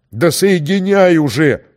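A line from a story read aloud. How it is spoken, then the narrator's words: Roared. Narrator (Russian): взревел начальник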